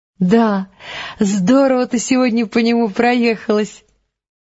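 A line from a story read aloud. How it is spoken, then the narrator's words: Laughing. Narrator (Russian): засмеялась Элис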